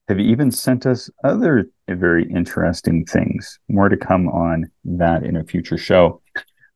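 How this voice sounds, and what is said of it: Voice in poor condition. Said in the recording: “my voice is not so good”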